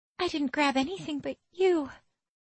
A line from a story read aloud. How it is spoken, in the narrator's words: Marisol says meekly